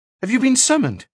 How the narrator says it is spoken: he said anxiously

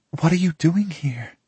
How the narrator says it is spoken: She practically whispers to me, trying her best to shield the question from our company

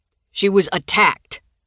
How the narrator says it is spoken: Grady barked into the phone

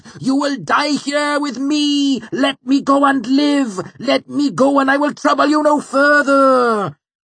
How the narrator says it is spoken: he wailed

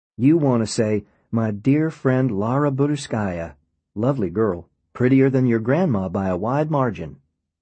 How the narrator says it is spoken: I laughed

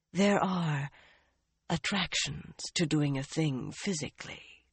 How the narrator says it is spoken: the woman breathed

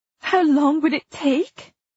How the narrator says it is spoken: I cried, anguished

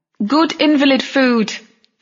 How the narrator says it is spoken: Camilla shouted from some distant kitchen

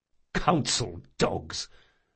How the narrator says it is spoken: muttered another officer

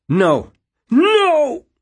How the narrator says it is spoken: the cry go up an octave and then cut off sharply

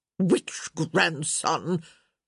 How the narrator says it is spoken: Lady D echoed impatiently

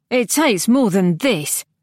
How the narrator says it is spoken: Kiriona said scornfully

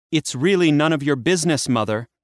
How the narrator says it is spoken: Persephone snapped

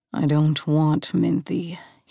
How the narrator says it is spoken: he growled

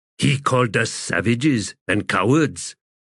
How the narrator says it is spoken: Another warrior growled and said

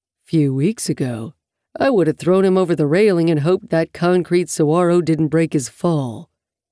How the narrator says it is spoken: he says blandly

